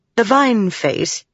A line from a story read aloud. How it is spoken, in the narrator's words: he called himself Windle, sighed